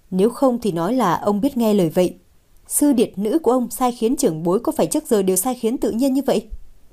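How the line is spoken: Hearty laughter. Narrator (Vietnamese): Lâu Thất bật cười ha hả

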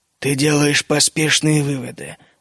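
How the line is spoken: Muffled reply. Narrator (Russian): глухо ответил регент

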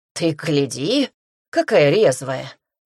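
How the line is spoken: Straining puff through teeth. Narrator (Russian): пыхтит сквозь зубы зирбух, упрямо таща меня к алтарю

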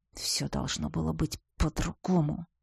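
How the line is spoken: Muffled repetition. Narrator (Russian): глухо повторил

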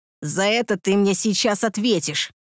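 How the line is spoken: Growled. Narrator (Russian): Прорычал он

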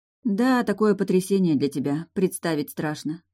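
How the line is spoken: Sighing. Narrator (Russian): вздохнула

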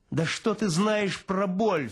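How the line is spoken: Lieutenant's sharp cry. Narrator (Russian): вскрикнул лейтенант

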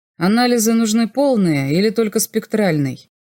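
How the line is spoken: Indifferent question. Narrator (Russian): спросил я с безразличным тоном

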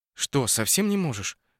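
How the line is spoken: Whispered question. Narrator (Russian): шепотом спросила Наташа

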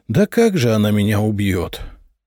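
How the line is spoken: Sad snort. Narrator (Russian): грустно хмыкнул князь

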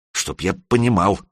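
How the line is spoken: Mutter. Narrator (Russian): пробормотал он

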